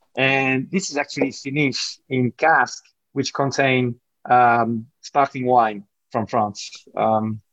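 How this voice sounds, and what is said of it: French accent. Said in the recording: “as you can tell from my accent, you know, I grew up in France”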